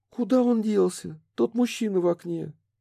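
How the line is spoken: Thin puzzled squeak. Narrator (Russian): Тонким женским голоском пропищала озадаченная

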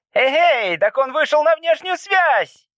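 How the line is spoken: Student shouting. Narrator (Russian): крикнул один из студентов

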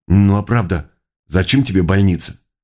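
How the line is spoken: Smirk, then serious question. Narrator (Russian): ухмыльнулся Годя и серьезным тоном спросил

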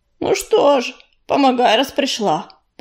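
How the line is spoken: Grumbled. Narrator (Russian): пробурчал он

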